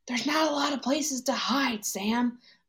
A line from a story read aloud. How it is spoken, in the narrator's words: Bucky whispered back